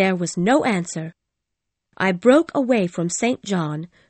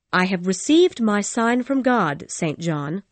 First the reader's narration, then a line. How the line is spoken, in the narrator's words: I said